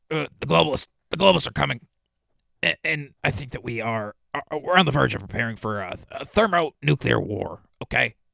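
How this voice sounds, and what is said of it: Alex Jones impression. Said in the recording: “my best Alex Jones impression”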